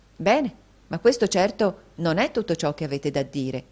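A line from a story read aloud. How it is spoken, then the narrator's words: Interrupting exclamation. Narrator (Italian): esclamò la signorina Price all'interruzione di Nicola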